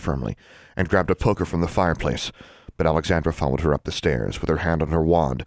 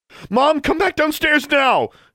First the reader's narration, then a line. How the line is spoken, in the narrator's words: exclaimed